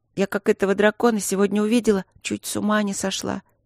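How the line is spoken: Sad. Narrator (Russian): грустно проговорила Каролинка

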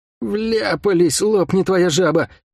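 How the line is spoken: Groan. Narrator (Russian): простонал Лук

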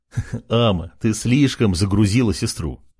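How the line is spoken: Laughing. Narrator (Russian): Рассмеялся Артем

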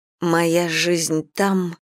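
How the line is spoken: Hoarse voice. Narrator (Russian): начинаю я осипшим голосом

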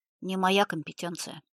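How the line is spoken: Plain. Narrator (Russian): сказал офицер

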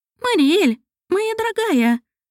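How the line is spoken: Squeaky inner voice. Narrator (Russian): пропищал знакомый голос в голове

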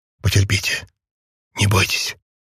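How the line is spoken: Encouraging whisper. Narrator (Russian): стараясь прибодрить ее, и прошептал

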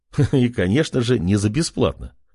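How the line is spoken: Chuckling. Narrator (Russian): хохотнул Артем

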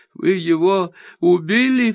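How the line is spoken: Sobbing. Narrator (Russian): всхлипывает

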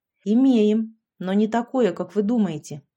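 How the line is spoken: Snorting. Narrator (Russian): хмыкнул Саша

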